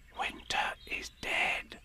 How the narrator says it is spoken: whispered to her neighbour

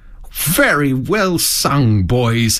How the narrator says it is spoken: cried the Rat, heartily

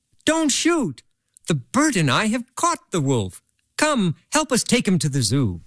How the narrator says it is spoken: Peter, sitting high up in the tree, cried out

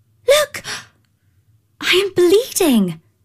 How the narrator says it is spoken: she exclaimed

